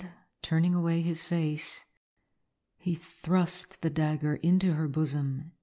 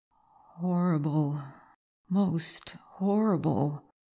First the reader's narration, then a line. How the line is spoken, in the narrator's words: faltered the trembling Valter